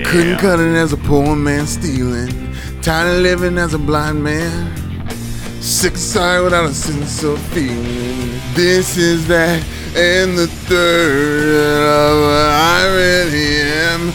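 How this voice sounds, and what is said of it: Strained, straining singing voice. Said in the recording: “You sound like a constipated baby.”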